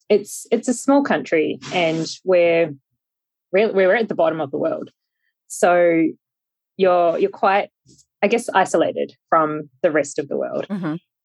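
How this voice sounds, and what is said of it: New Zealand accent. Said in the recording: “grew up in New Zealand, which you can probably tell from my accent”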